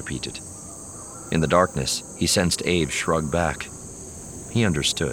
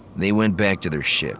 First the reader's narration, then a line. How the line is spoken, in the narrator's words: Aves said, his voice scowling